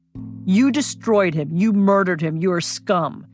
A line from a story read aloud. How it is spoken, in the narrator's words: he once shouted in Parliament